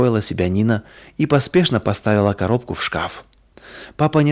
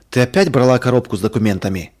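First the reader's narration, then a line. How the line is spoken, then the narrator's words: Stern question. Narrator (Russian): строго спросил он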